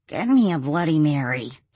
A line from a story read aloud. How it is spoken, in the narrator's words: he groaned